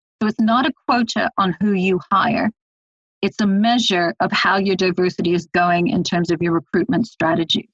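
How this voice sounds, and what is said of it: Hybrid American-British accent. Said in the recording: “my accent being a strange hybrid American-British”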